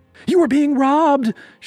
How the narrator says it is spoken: screamed, faking surprise

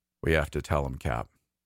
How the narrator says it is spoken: said quietly

